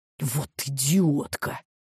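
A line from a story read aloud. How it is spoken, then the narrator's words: Frightened, angry whisper. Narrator (Russian): испуганным и злым шепотом сказала Селиванова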